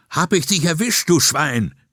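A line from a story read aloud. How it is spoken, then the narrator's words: Young man shouting. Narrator (German): rief der junge Polizist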